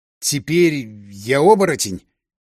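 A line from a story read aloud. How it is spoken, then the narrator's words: Strained, barely audible. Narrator (Russian): еле выдавил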